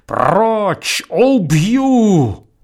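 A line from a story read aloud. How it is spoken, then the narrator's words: Wild yelling. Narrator (Russian): Колтунов заорал диким голосом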